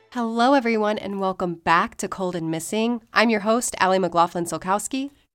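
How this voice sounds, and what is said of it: Slightly sick-sounding voice. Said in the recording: “You can probably tell from my voice, I'm still a little sick”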